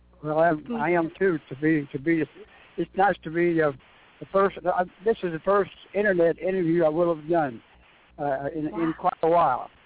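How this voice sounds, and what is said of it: Slightly hoarse voice. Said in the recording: “I've talked so much, I'm a little bit hoarse”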